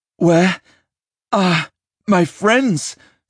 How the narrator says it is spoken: Simon croaked

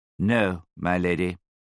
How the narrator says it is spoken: he replied in a calm, measured voice

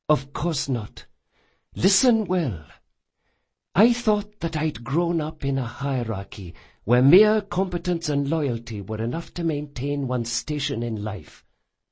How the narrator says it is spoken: whispered

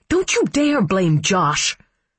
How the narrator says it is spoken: she snarled

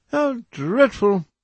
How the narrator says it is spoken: exclaimed Lady Agatha

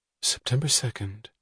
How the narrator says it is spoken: she asked, her voice wistful

